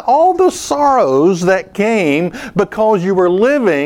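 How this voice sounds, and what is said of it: Usual voice. Nothing is said of it.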